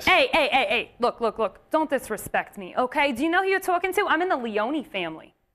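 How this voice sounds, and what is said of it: Put-on Italian-American mobster accent. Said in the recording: “What's with the accent? ... I'm Italian. It's what I do.”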